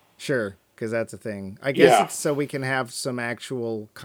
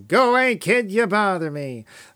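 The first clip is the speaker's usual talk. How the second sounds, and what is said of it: Bad W.C. Fields impression. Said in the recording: “In the worst W.C. Fields impersonation ever. Mine, not his.”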